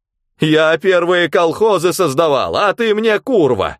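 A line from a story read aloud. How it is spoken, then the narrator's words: Mother-in-law loud shouting. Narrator (Russian): Громко закричала теща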